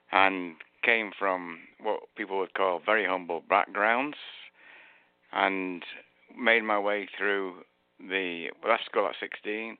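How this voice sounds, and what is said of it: Northern English accent. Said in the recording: “as you can tell from my accent, I'm from England. I was born in Manchester, the northern part of England”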